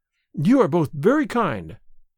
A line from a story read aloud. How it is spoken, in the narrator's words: she answered